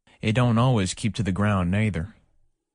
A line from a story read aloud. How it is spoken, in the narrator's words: came in Hank's slow, heavy drawl